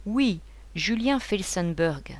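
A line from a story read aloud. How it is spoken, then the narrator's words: Soft young woman. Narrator (French): reprit doucement la jeune femme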